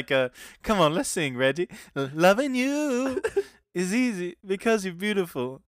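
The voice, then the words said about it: Imitates another person's voice. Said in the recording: “You have a pretty good Eddie Murphy impression.”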